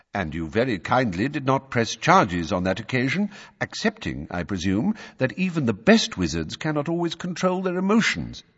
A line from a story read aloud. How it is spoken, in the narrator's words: said Dumbledore calmly